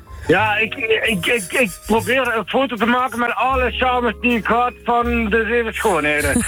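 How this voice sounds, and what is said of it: Limburg Dutch accent. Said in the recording (Dutch): “mijn mooie Limburgs accent”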